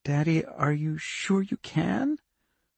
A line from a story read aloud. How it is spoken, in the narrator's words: Her voice was small and very scared